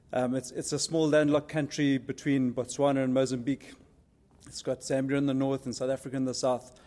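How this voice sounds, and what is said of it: Noticeably different foreign accent. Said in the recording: “you'll hear the accents a little bit different”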